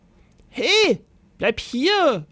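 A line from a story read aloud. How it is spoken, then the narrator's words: Knight bellowing after someone. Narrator (German): brüllte der Ritter ihm nach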